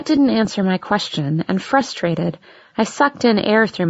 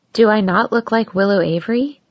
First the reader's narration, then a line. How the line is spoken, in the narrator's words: asked in a teasing voice